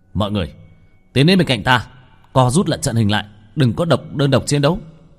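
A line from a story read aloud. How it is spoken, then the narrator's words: Commanding shout. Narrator (Vietnamese): Bạch Thường trong lòng ngẫm nhiên quát lên một tiếng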